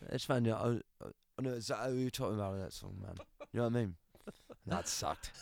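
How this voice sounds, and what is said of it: Imitates another person's voice. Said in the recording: “You do a great accent, a great impression of Liam Gallagher.”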